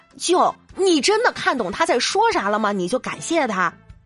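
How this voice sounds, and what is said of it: Quiet, lowered aside voice. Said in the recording (Chinese): “小声说一句啊”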